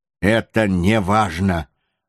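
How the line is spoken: Rude remark. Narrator (Russian): грубо заметил Кара-Тете

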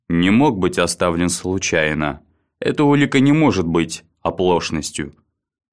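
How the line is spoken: Gloomy remark. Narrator (Russian): также мрачно заметил Баррис

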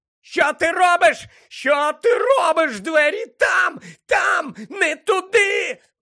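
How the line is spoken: Shrieked right into ear. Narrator (Ukrainian): Верещав Мелфой йому просто в ухо

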